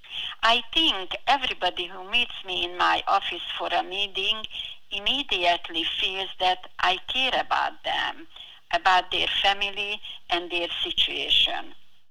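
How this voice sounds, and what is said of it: Very heavy foreign accent. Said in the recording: “I have a very heavy accent”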